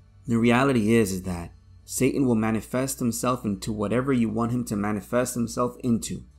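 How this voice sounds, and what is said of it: Tired, strained voice. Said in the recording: “I apologize for my voice. I've been working a lot lately, so I'm a little bit tired.”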